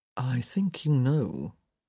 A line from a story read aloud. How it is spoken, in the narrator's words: he murmured